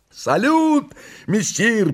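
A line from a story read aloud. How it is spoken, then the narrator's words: Two voices shouting. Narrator (Russian): прокричала неугомонная парочка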